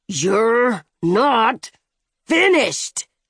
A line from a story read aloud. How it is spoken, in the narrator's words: the shooter growled